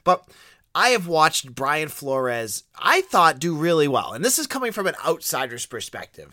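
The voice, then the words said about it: Boston accent. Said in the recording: “You can hear my Boston accent come through”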